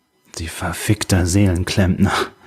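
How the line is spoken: Hiss. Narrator (German): zischte sie

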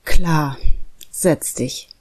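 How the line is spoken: Sighing father. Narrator (German): seufzte der Vater

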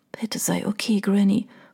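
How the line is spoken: Whispered. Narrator (German): flüsterte sie

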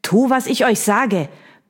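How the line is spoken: Villain barking. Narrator (German): bellte der Schurke

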